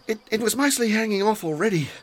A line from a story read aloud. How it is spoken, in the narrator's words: he panted